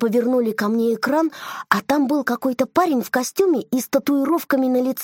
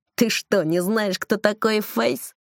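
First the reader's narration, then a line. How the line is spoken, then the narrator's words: Surprised snort. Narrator (Russian): удивленно фыркнул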